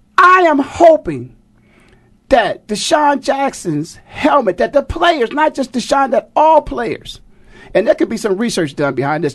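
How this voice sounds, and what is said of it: Raised, excited voice. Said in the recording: “my voice is raised a little bit now. I'm getting a little excited.”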